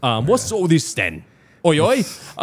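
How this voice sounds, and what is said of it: Put-on English accent. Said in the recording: “you're adding on the English accent... I think I just have an English accent now.”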